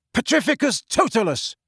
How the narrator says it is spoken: shouted Harry

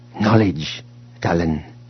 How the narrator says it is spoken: Cardus said quietly from beside him

